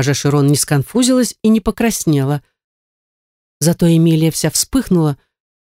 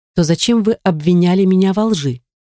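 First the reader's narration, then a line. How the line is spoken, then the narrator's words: Calm answer. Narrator (Russian): отвечала Эмилия спокойно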